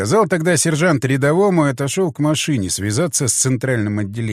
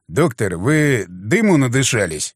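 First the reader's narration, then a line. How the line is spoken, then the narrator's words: Snorting, wry. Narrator (Russian): хмыкнул я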